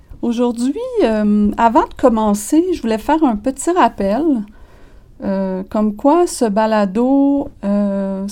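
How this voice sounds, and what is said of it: Québécois French accent. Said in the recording (French): “c'est un balado en français avec l'accent québécois”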